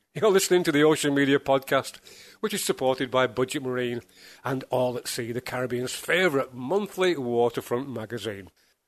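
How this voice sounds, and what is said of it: Congested, stuffy voice. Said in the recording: “if you think I'm a little bit bluer, it's because I have a cold.”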